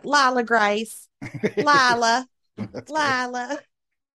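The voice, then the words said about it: Imitated thick Southern accent. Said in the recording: “they have a real thick Southern accent”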